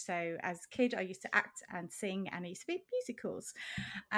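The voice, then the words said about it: Non-American accent. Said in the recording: “I don't have the beautiful accent like Barbara”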